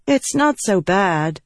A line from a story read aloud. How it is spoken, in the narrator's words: Shallan said with a sigh